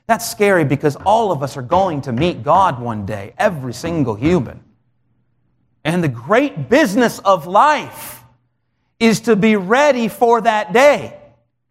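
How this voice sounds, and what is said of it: Raised, louder preaching voice. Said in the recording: “I'm raising my voice a little bit”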